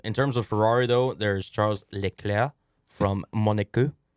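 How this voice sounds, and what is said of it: Put-on French accent. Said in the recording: “I just kind of threw that accent in there ... speak a little French”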